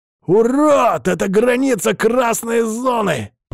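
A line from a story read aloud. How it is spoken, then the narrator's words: Growl. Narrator (Russian): прорычал Кай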